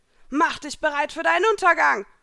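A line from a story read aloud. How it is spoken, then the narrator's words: Scream. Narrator (German): schrie Elsa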